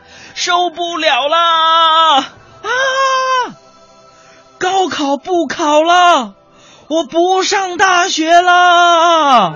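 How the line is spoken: Shouting. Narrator (Chinese): 我喊着

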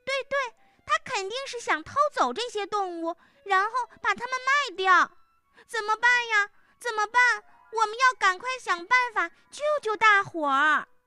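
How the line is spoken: Nervous cry. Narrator (Chinese): 农场里的猫咪紧张兮兮的叫起来

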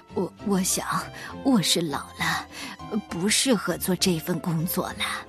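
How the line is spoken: Old man, soft apologetic. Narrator (Chinese): 水壶爷爷连声道歉，……轻声地说

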